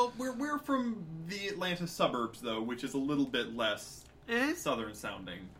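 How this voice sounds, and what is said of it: Usual voice. Nothing is said of it.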